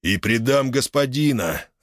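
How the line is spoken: Growl through teeth. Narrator (Russian): рычит сквозь зубы Фостерс

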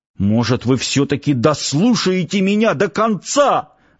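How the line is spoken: Commanding yell. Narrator (Russian): заорал парень на командиров так, словно самым главным начальником был как раз он

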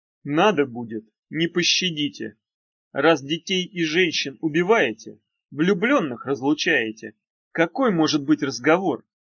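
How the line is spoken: Plain. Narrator (Russian): сказал Багров

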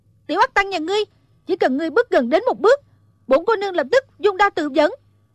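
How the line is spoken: Startled fierce shout. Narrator (Vietnamese): Thủy Sinh giật mình, cho rằng tên này lại nổi ý bậy bạ, quát lên

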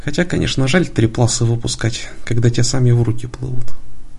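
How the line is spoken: Sighing. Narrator (Russian): вздохнув, добавил

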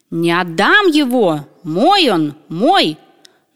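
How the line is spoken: Shouting. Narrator (Russian): как закричит

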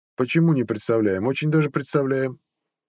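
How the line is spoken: Muttering. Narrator (Russian): пробурчал Харолд

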